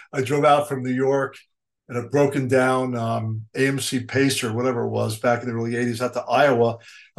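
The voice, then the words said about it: New York accent. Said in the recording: “you have too much of a New York accent.”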